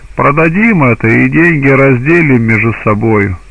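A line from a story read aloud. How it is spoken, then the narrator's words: Laughing speech. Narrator (Russian): стали смеяться и говорили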